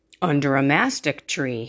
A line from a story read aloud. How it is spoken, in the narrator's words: he answered